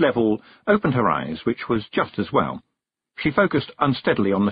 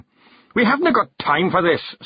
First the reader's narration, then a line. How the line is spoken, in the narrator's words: snapped Rob Anybody